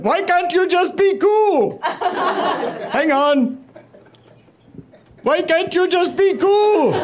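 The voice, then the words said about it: Put-on Indian accent. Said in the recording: “I have an Indian accent”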